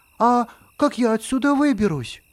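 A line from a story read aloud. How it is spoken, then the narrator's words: Anxious question. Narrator (Russian): пояснил Рома и взволнованно спросил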